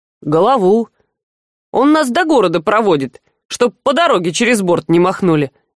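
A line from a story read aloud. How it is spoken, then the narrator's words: Ironic snort. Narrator (Russian): иронично хмыкнул Мих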